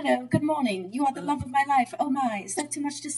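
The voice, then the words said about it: Awkward little British robot voice. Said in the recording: “he has got that little British accent. He's like awkward.”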